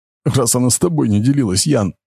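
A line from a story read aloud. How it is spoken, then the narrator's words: Sobbing mother. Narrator (Russian): всхлипнула мать Лени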